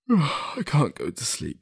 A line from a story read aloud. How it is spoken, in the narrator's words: he said through a yawn